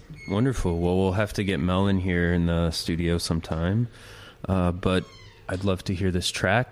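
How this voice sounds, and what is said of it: Raspy, sick-sounding voice. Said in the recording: “my raspy, flu ridden voice”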